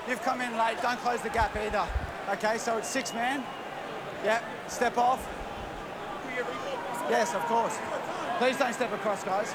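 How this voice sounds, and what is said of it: Australian accent. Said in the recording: “you can hear him in an Australian accent”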